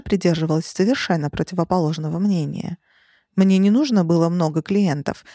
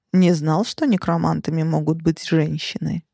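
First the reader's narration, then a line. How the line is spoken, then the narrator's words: Calm. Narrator (Russian): спокойно заметил Келл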